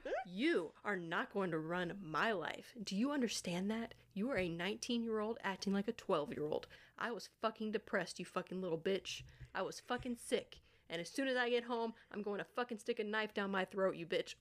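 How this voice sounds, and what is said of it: Sassy character voice. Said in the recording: “in my sassy voice”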